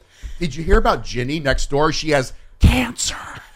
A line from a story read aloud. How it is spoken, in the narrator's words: Mary Winningham's mom whispers